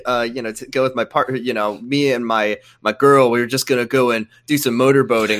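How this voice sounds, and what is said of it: Greaser-style tough guy voice. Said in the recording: “why do you talk like a greaser?”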